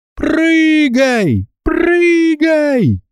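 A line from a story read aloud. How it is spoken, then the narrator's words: Screaming. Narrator (Russian): завопила она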